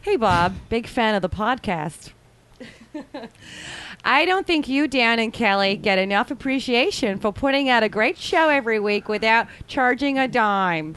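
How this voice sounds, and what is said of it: Poor put-on Midwestern accent. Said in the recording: “Can I do it in Midwestern? ... she should work on the Midwestern accent. ... Pretty god awful. ... One of those words sounded accurate.”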